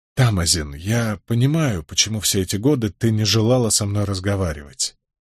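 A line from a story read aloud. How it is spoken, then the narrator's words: Soft. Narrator (Russian): мягко произнес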